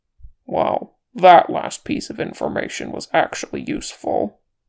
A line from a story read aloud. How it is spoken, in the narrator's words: Gimli grunted